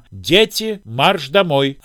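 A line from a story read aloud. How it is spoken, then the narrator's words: Shout through window. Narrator (Russian): кто-то крикнул им в форточку окна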